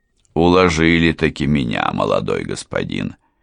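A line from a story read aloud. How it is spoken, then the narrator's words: Grumbling. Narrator (Russian): проворчал он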